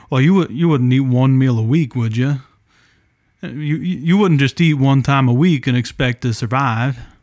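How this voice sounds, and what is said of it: Put-on Southeast Ohio accent. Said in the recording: “I heard that growing up when I was in Southeast Ohio. That's why I did it with an accent.”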